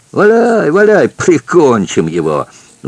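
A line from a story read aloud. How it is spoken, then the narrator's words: Excited gleeful shout, laughing. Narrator (Russian): закричал Шаваль и засмеялся, возбужденный, обрадованный этой мыслью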